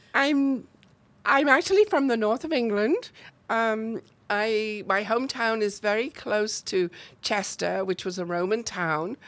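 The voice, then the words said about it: British accent, northern England. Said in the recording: “You, you obviously don't sound like you're from around here, ... British accents.”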